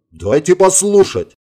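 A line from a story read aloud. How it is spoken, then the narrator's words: Barked over radio. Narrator (Russian): в общем канале рявкнул Волков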